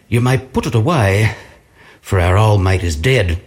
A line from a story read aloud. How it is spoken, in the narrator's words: sadly they looked at the glass as they said